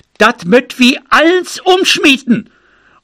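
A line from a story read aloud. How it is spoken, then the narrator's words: Calling out. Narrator (German): Frau Kirschbeth rief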